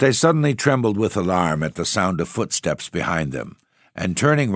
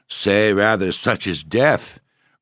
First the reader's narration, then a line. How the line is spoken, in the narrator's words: replied Morisot, laughing